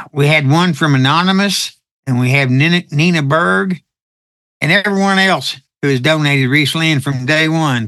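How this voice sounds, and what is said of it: Texan accent. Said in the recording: “your Texan accent”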